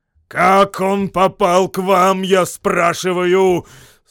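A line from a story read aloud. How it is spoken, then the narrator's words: Shout, rising anger. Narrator (Russian): С нарастающим гневом закричал Торин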